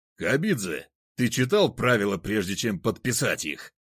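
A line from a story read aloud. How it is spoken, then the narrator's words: Roared. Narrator (Russian): взревел судья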